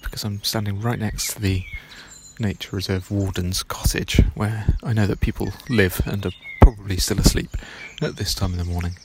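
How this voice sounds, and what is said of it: Whispering. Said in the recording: “I'm whispering a little bit”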